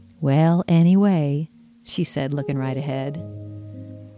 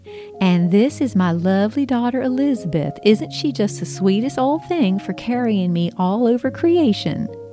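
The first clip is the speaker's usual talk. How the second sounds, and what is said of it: Imitated Southern US accent. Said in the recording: “I mimicked Mom's southern accent.”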